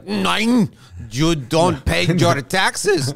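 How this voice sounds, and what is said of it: Mock Bulgarian accent. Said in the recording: “that was a fantastic Bulgarian accent”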